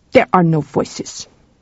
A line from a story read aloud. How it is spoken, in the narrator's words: said Ingar bitterly